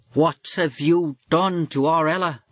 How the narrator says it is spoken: the wife shrieked his way

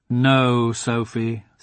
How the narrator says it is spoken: said her father firmly

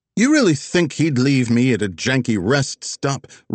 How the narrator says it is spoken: Roddy asked a bit too loudly in Elijah's ear

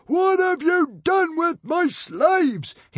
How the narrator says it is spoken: he roared

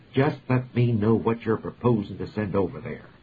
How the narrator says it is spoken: the President said irritably

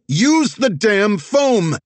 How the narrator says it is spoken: Zig yelled

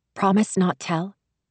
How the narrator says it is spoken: Jing Jing whispered

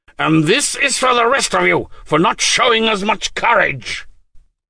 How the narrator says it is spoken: he screamed

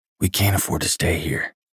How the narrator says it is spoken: I whispered to Quinn

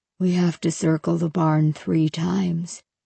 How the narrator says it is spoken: he said in a low voice

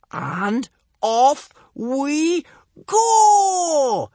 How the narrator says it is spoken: yelled Kamikaze

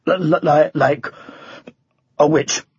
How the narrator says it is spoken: stammered Sir Tumbleweed

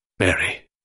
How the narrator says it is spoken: his voice was very quiet now

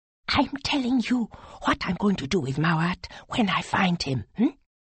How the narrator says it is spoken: whispered

